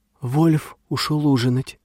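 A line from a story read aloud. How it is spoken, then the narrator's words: Flat undertone, old man. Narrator (Russian): Старик Хренов заметил без выражения вполголоса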